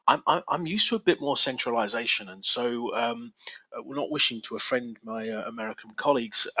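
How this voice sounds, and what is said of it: English accent. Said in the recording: “you've heard my English accent.”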